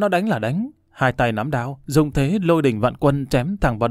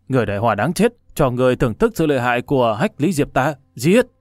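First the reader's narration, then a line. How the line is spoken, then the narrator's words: Wolfish growl. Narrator (Vietnamese): Võ sĩ đột quyết gầm gừ như chó sói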